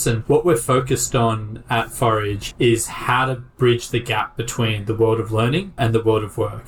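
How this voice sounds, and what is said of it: Non-American English accent. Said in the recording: “You can probably tell from my accent, I'm not initially from the US.”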